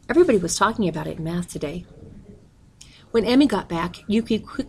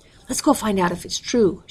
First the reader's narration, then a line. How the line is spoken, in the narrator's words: said eagerly